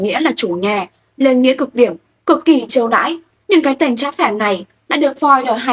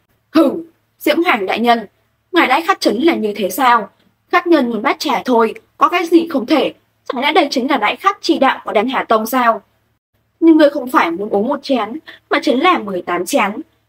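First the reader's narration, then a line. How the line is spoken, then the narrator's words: Feigned anger. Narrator (Vietnamese): giả bộ tức giận, cười lặn nói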